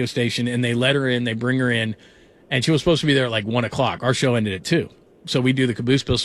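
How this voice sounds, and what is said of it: Usual voice. Nothing is said of it.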